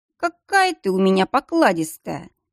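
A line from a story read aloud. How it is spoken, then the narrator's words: Smirking snort. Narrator (Russian): хмыкнул Дияр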